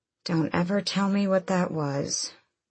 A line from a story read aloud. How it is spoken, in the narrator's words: Aelin murmured to him